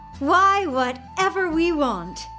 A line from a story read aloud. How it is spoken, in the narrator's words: he exclaimed